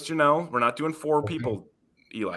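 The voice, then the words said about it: Stern teacher voice. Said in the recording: “teacher voice”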